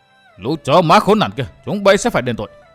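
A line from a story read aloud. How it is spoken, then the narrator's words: Thunderous furious roar. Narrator (Vietnamese): hai mắt như đỏ lửa, chàng thét vang như sấm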